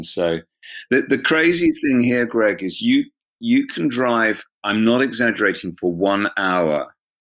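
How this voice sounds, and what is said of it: Southern English home counties accent. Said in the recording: “home counties, southeast of England, London accent”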